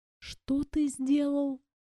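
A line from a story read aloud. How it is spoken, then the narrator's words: Disbelieving whisper. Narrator (Russian): прошептала я, не веря в то, что слышу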